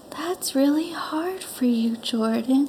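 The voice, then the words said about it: Gentle, soft, sweet therapist voice. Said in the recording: “she's like the most gentle and sweet... holds like really soft space... that's a really good impression”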